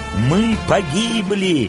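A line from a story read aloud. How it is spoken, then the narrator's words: Shouting crowd. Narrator (Russian): закричали изгнанники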